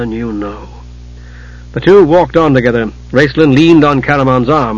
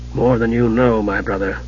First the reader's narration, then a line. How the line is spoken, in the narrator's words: Raistlin said softly